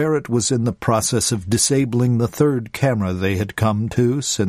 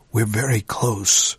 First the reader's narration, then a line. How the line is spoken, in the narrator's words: Dega whispered